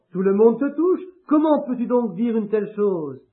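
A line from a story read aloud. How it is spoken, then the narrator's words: Plain. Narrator (French): Jésus répondit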